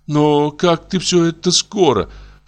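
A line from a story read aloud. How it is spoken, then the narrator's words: Whiny, tearful mumble. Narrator (Russian): промычала она плаксивым голосом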